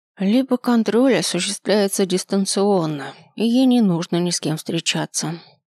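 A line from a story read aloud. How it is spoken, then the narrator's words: Gloomy. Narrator (Russian): добавляет Марьяна мрачно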